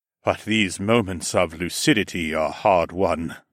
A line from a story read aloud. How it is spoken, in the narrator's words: he sighed